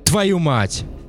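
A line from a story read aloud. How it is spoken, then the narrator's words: Yell, killer. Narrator (Russian): заорал убийца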